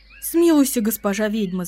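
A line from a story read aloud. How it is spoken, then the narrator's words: Babbling plea. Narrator (Russian): залепетал он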